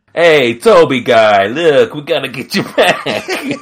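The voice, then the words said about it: Put-on sleazy American accent. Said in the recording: “that was a pretty good, like, American accent... It was a dirtbag American accent.”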